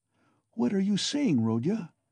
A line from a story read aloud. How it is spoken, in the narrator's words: cried Pulcheria Alexandrovna